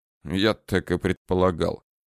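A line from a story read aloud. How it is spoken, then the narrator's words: Mumbled. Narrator (Russian): пробормотал алконост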